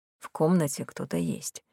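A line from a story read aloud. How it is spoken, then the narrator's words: Quiet. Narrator (Russian): тихо сказал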